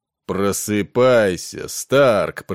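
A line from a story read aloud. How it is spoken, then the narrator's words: Booming. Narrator (Russian): прогремел он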